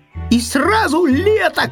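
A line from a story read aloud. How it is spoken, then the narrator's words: Shouting. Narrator (Russian): крикнул заяц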